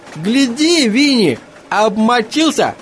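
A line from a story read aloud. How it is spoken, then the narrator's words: Shouted. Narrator (Russian): крикнул Лоусон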